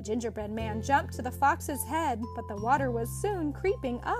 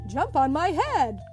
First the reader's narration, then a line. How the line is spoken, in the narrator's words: cried the fox